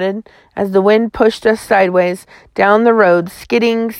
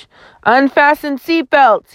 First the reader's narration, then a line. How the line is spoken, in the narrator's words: he yelled